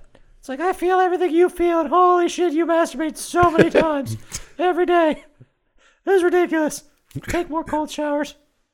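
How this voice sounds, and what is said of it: Bad impression of a character's voice. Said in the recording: “my Lilia impersonation... You're terrible... It was a bad impersonation.”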